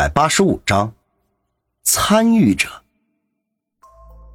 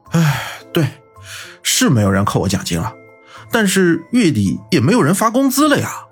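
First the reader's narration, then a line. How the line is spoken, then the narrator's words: Sighing, weak and weary. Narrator (Chinese): 方寸叹了口气，然后有气无力的说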